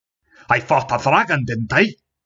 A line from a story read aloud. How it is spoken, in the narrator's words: He added, angrily